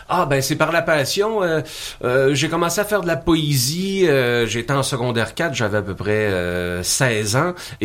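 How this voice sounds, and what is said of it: Charming regional French accent. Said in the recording (French): “on est charmé par votre accent.”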